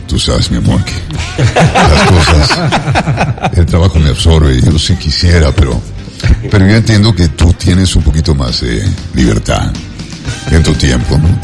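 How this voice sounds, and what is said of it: Radio announcer voice. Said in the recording (Spanish): “Ahí pongo voz de locutor”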